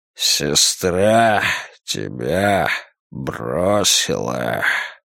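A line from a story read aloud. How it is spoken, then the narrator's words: Hoarse rasp. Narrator (Russian): прохрипел он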